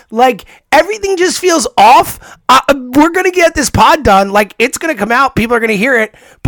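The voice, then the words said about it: Slightly strained, worn-out voice. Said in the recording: “My voice is a little shot.”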